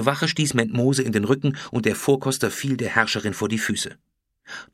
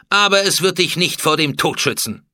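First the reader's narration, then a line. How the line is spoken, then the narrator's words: Cold. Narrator (German): sagte Hatschepsut kalt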